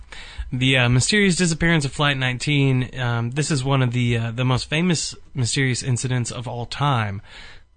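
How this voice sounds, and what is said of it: Put-on radio announcer voice. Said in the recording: “Radio voice ... I was preparing my radio voice.”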